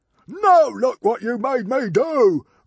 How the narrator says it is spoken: roared Norbert the Nutjob

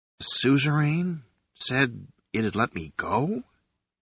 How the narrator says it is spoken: he whispered

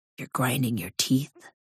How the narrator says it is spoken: Nick whispers

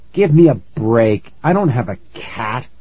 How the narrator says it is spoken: I said through gritted teeth

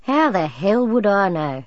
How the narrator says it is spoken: he growled

